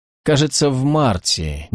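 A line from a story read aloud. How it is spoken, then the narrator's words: Uncertain reply. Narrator (Russian): неуверенно ответила МакБаннерман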